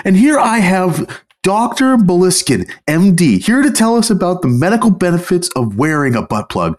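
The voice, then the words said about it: Video game radio host voice. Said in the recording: “My best impression of like a GTA radio host”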